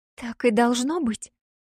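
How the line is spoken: Whispered. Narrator (Russian): прошептала девушка

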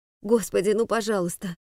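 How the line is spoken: Tearful whisper. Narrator (Russian): Слезы катились по щекам, шептала

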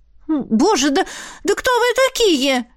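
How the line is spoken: Slightly shrill shout. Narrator (Russian): Немного визгливо прокричала я

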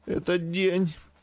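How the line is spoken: Hoarse wheeze. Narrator (Russian): всхрипнула жена

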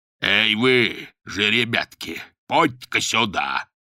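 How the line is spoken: Booming drone. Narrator (Russian): прогудел Полуэктов

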